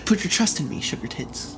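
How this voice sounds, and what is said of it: Good impression of a character's voice. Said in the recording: “That was a really good Frowns impression.”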